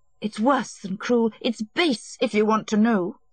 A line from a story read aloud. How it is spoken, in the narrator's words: Anna cried in a rush of hatred